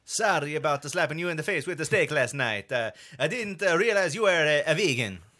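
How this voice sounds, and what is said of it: Luigi-style Italian accent impression. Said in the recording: “that was Luigi. So that's basically ... Mario.”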